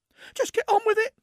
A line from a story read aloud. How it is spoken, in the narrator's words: finally blurted